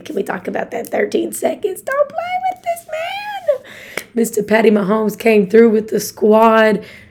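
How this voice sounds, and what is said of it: Slightly hoarse, strained voice. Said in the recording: “My voice is a little straggly. Your girl was yelling for that Chiefs game.”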